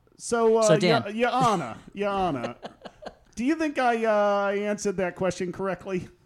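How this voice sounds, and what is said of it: Speaks with a put-on accent. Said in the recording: “my accent choice? ... you added an accent.”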